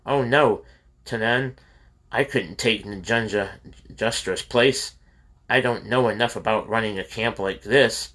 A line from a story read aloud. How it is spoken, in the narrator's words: Recovering, gasped